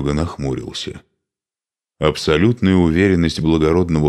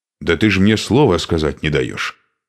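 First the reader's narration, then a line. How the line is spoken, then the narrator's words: Angry reply. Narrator (Russian): сердито ответил Шуйка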